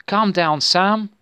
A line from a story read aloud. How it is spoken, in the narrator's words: begged people all around him